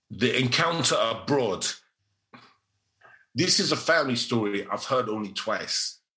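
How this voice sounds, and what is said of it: Put-on London youth accent. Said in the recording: “I'm going to do it in the accent of a London Ute.”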